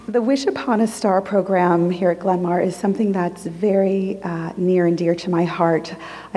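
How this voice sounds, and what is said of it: Hoarse, worn-out voice. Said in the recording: “Excuse my voice. I was a little enthusiastic at my daughter's cheer competition yesterday.”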